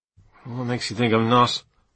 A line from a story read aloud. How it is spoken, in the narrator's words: I muttered